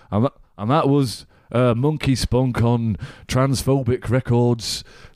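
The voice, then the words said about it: Poor imitation of a radio DJ. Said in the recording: “that's not a very good impression of him ... your impression did sound a lot like Jimmy Savile”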